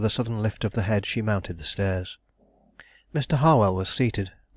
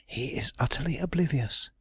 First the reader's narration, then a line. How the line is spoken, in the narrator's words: Mary whispered